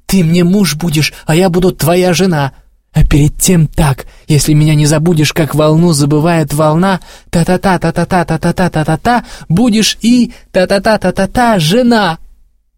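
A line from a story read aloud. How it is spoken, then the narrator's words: Agitated, angry, through teeth. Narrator (Russian): сквозь зубы взволнованно и сердито окончила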